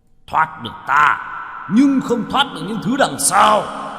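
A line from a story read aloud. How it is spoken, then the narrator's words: Roared. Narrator (Vietnamese): Thạch Cơ Hầu gầm lên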